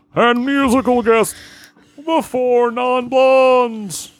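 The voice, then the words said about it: Don Pardo announcer impression. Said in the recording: “When I do my Don Pardo ... Pay tribute to the late Don Pardo”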